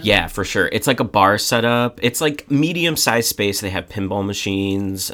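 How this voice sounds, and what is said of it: Slightly droning, sick-sounding voice. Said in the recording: “I was a little sick this week. ... My voice is still a little, like, droning sounding.”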